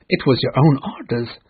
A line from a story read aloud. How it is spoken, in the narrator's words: the pirates answered